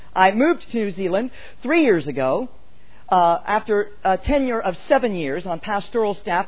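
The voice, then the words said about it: North American accent. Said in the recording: “I worked in North America. I suppose my accent gives away my homeland.”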